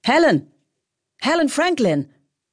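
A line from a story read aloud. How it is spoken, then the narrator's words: Agitated shout. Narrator (German): ruft jemand so aufgeregt, als hätte sie gerade ihre Tasche verloren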